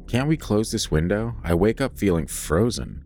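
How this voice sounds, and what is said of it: Complaining voice. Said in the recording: “in a complaining voice”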